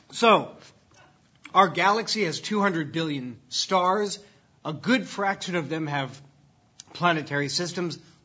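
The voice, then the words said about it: Voice cracking with emotion. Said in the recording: “My voice is cracking up with emotion”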